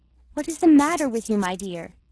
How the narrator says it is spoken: she said crossly

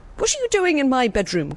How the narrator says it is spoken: cried the king

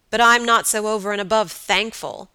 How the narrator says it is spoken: answered her lover savagely

